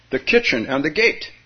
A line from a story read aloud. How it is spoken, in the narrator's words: Hearing no reply, he exclaimed